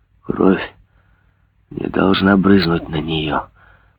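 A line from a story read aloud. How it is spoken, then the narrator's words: Dull mutter. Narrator (Russian): пробормотал он глухо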